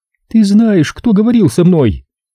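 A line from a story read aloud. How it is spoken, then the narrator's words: Frightened whisper. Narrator (Russian): Максин испуганно оглянулась и прошептала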